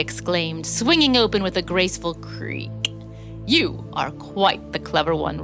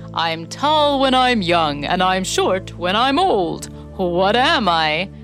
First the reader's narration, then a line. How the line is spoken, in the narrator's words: answered, chuckling